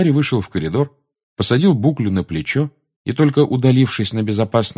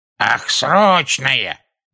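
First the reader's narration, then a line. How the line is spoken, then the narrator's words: Shrill voice. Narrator (Russian): пронзительным голосом отозвалась вторая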